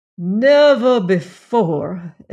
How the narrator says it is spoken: exclaimed the real estate agent in a magnificent peroration

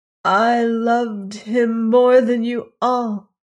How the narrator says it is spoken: she tried to say, but she only wailed again and again the pea fowl's cry

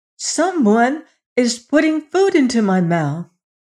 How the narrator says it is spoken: cried the queen's son

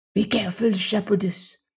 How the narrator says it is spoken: whispered Nam

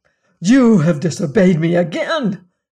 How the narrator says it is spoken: cried he

